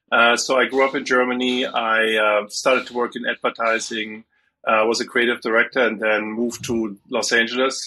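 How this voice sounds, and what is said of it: German accent. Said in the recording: “I'm originally from Germany, as you can hear from my accent, possibly”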